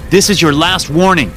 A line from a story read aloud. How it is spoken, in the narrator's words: I screamed